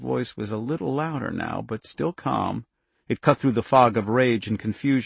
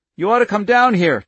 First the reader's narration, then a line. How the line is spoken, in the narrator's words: Charlie cried loudly